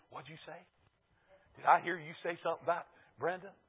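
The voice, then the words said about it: Whispering voice. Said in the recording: “That's whispering.”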